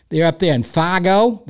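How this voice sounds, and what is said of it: Poor attempt at Wisconsin accent. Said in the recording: “is that a Wisconsin accent? I have no idea. It was terrible”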